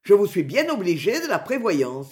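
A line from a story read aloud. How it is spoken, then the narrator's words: Defiant. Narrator (French): me répondit le Drouineur d'un ton défiant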